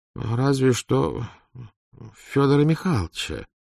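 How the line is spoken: Uncertain suggestion. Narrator (Russian): неуверенно предположил Морозов

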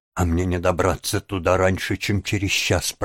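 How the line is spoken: Mutter. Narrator (Russian): пробормотала девушка

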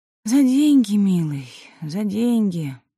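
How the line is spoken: Sighing. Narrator (Russian): вздохнула Аглая Тихоновна

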